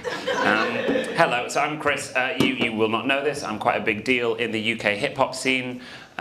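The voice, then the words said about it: British accent. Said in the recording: “Check out the accent. It's real. It's real. You got rid of us 250 years ago, but we're back.”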